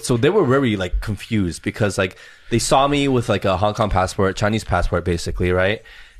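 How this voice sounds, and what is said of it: American accent. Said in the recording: “you have an American accent, right? ... the whole demeanor as well is American.”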